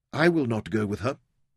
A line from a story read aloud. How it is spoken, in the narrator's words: Verity said evenly